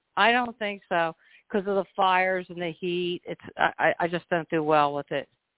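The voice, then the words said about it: Light East Coast accent. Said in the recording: “your voice doesn't sound like you're from Arizona originally... You don't have a heavy East Coast accent, but there's the traces of it there.”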